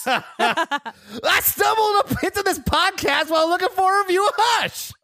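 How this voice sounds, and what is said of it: Overly excited imitation of another person. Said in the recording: “please read while doing your best overly excited Todd impression.”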